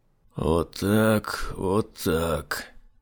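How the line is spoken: Tense muttering. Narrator (Russian): напряженно бормотал Айзек

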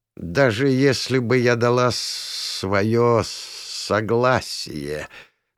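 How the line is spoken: Forced out. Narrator (Russian): наконец выдавила из себя Хашис

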